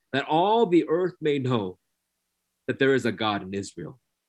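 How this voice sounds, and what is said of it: Slow, deliberate speech. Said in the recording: “I'll say it slowly,”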